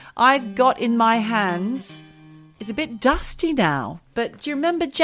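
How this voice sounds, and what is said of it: Usual voice. Nothing is said of it.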